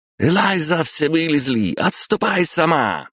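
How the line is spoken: Shouted from behind. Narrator (Russian): закричала ей в спину Кармен

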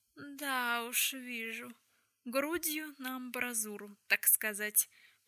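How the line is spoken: Drawling. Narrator (Russian): протянул Магнус

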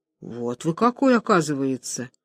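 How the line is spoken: Gloomy. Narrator (Russian): Чугуев мрачно

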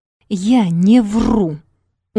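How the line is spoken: Stubborn words through teeth. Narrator (Russian): упрямо процедила она, сжав зубы

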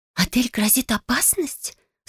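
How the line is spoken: Anxious whisper. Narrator (Russian): встревоженно прошептала Фелиция

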